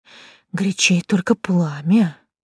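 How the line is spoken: Barely audible agreement. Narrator (Russian): еле слышно согласилась Катя

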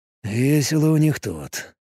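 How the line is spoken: Mutter. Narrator (Russian): пробормотал он

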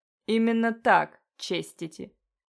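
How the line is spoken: Meaningful drawl. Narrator (Russian): Со значением протянул мистер Юнтис

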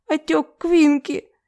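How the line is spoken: Near sob. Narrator (Russian): Почти всхлипнула женщина в ответ

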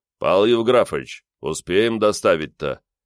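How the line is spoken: Deep bass question. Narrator (Russian): Неожиданно густым басом спросил старшего

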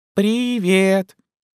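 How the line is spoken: Squeak. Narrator (Russian): пискнул пришелец еще раз

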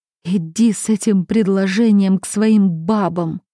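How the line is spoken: Strained, choked voice. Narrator (Russian): сумела выдавить я сквозь спазм в горле

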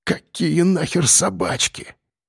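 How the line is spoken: Whispered. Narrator (Russian): прошептал

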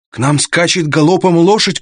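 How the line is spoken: Shout. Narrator (Russian): крикнул он

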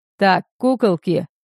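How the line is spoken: Barking. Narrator (Russian): рявкнул господин Нумас

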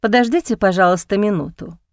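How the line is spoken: Quiet. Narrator (Russian): тихо сказал Максим расторопному официанту

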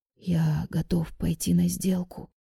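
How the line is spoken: Man's trembling whisper. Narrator (Russian): прошептал мужчина, недослушав, и повторил, селясь спрятать дрожь в голосе

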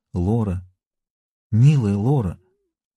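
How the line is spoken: Quiet. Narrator (Russian): тихо произнес

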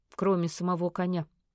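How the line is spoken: Curt mutter. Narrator (Russian): буркнул Вадим

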